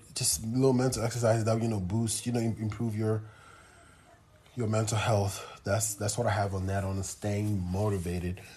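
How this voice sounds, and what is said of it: Out of breath, breathy speech. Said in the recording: “I'm out of breath myself again, so I'm going to drink some more water”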